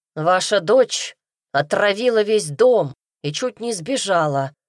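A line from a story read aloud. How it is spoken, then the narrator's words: Growling. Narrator (Russian): прорычал Немью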